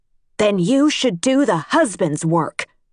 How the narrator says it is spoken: she said, her voice raised

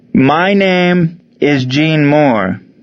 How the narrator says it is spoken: announced, loudly and slowly, as if the Germans were hard of hearing but spoke perfect English

